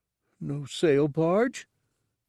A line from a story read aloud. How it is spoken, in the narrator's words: Gartog snuffled sadly